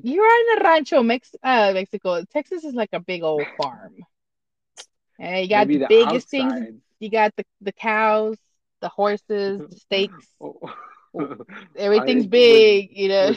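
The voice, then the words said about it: Attempted Texan accent. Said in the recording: “Was that you trying to talk in a Texan accent?”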